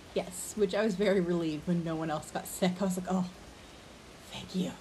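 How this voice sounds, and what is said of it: Lower-pitched, scratchy voice. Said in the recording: “my voice is not as high as it usually is... it's still a little scratchy... in about 5 minutes, it's going to be way more scratchy”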